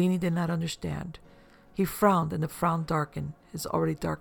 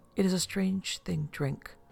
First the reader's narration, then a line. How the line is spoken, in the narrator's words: Bellini murmured